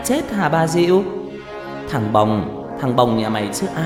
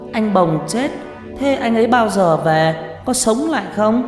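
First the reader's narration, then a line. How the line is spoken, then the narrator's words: Crying, whimpering child. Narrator (Vietnamese): Nó cứ đứng mếu máo khóc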